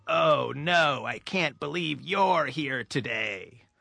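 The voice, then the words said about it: Creepy voice. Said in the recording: “I say in this kind of creepy voice”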